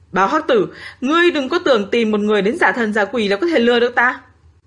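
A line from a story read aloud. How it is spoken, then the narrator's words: Fat man's trembling shout. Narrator (Vietnamese): Đống thịt mỡ run rẩy hét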